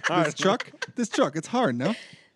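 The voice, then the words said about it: Good put-on Cajun accent. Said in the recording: “like a Cajun accent ... That's a good Cajun accent.”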